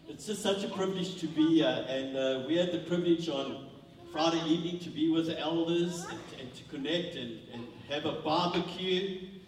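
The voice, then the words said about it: Strong South African accent. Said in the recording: “my South African accent is, one that's been here 20 years, and his is fresh off the boat”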